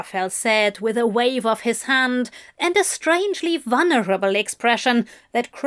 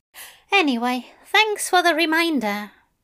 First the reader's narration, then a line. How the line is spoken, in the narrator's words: Aziraphale sighed